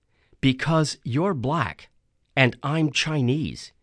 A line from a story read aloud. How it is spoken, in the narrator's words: he said softly